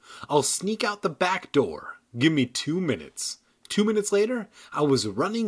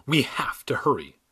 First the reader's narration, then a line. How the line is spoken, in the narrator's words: whispered